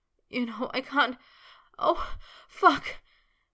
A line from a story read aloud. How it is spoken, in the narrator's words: he wailed